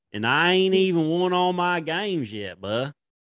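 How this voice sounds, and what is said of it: Put-on Southern accent, poorly done. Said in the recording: “his, Southern accent? ... It's terrible. ... how about that accent?”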